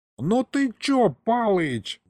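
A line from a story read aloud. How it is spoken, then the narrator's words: Old man's howl, cut short. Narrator (Russian): взвыл было дед, но заткнулся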